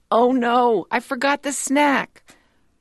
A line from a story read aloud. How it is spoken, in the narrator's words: Mom shouts